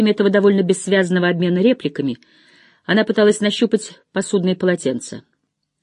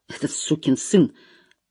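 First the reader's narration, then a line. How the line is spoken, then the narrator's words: Muttering. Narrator (Russian): пробормотал он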